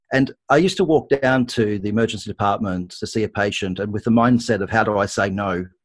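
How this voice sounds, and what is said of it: Australian accent. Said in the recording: “Probably people can pick from my accent, I am Australian”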